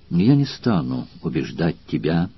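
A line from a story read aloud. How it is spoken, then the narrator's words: Calm, after a pause. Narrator (Russian): после минутного молчания спокойно сказала Валерия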